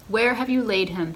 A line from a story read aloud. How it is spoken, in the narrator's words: he asked